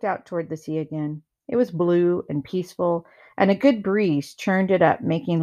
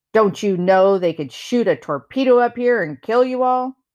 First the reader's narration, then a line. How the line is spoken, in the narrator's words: He growled